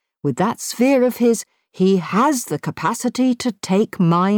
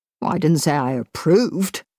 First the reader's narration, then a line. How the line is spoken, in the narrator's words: Chris snapped back